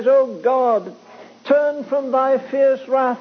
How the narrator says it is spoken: he pleads, he says

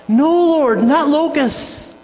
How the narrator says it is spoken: Amos had seen horrible locusts and he cried out

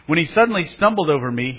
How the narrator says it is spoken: he blurted out

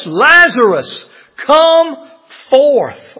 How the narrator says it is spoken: he cried out with a loud voice

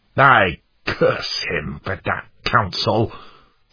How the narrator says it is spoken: snarled Worldly Wise Man

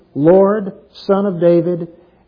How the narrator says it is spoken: says

